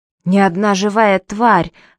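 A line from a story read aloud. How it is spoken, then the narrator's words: Agitated reminder. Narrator (Russian): взволнованно напомнил Гейр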